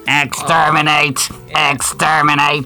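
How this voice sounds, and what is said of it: Good Dalek robot voice impression. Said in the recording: “It's a very good Dalek impression.”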